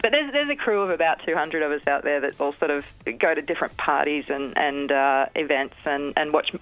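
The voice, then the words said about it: Australian accent. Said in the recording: “Americans seem to love the Aussie accent ... I started sounding a little more American ... so I wouldn't lose my accent ... people love the Aussie accent, so I work really hard to keep it”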